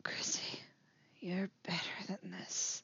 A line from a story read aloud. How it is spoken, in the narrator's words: he whispers